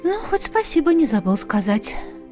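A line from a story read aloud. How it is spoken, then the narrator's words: Sighing. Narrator (Russian): вздохнула я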